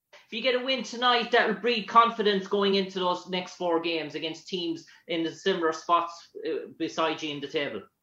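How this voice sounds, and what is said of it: Irish accent. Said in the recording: “Where are you from? ... Ireland. ... I like your accent. ... I want to learn how to talk like that”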